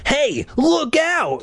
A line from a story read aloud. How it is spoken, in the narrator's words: an alarm voice cried